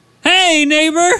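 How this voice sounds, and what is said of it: Creepy hillbilly-style character voice. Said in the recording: “you sound like a pedophile when you said that... It sounded pretty hillbilly.”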